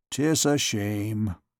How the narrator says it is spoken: muttered the tormentor

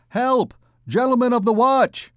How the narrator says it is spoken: shouted Gringoire

